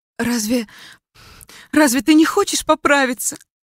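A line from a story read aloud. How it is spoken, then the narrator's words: Pleading. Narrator (Russian): Взмолилась Элли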